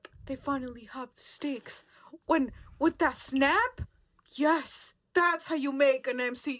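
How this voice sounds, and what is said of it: Imitates another person's voice. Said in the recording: “your impression of me. It's good. ... she was doing a good impression”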